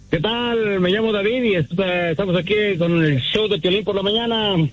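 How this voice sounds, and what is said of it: Radio announcer style voice. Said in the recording (Spanish): “tiene voz de locutor”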